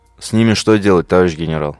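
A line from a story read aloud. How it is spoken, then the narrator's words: Plain. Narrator (Russian): спросил Молот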